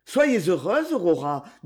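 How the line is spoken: Brisk, lively. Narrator (French): dit-il vivement

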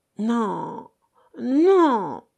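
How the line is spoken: Moaning. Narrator (French): gémit-il

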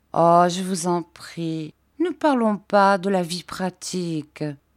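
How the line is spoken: Caressing tone. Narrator (French): me dit-elle d'un ton caressant

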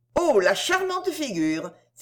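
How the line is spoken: Exclaimed. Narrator (French): s'écria Lady de la Cour

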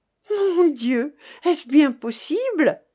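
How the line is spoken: Shocked exclamation. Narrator (French): s'écria Virginie, qui, à l'annonce de cette fortune inespérée, changea de couleur

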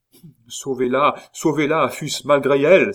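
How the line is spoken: Exclaiming. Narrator (French): s'écria Remy

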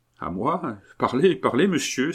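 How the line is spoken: Astonished exclamation. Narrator (French): s'écria Jean-Robert au comble de l'étonnement

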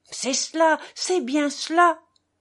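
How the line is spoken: Excited exclamation. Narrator (French): s'écria-t-il très animé

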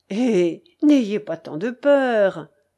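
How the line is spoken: Sneering reply. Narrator (French): répondit celui-ci en ricanant

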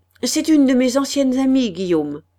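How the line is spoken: Curt short voice. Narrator (French): dit-elle d'une voix brève

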